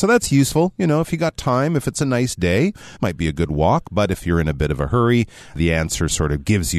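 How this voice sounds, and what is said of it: Usual voice. Nothing is said of it.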